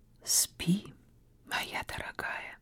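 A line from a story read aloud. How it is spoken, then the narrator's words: Whispering. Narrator (Russian): прошептал он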